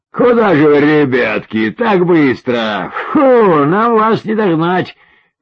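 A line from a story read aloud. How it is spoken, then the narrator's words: Shouted. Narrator (Russian): крикнул тот в спортивном костюме и белой кепочке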